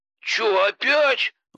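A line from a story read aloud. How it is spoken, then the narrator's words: Exclaimed. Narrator (Russian): воскликнул Богдан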